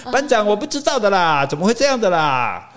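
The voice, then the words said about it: Stereotyped Taiwanese indigenous accent imitation. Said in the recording (Chinese): “原住民并不是这种口音 ... 原住民这样会会这样讲话，是报告班长那部电影里面有一个原住民的兵 ... 才有人故意学这种口音来讲话”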